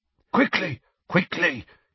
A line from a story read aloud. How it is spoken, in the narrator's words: a wheezy voice mutter